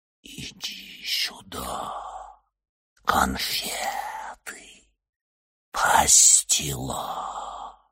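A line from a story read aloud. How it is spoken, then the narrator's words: Whispering in the ear. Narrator (Russian): Элли прошептала ему на ухо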